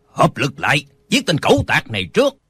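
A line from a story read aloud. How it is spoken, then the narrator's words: Old man's barked command. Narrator (Vietnamese): Một lão già quát lên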